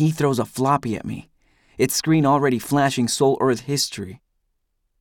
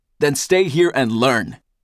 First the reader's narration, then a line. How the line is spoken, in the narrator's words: Eldest roars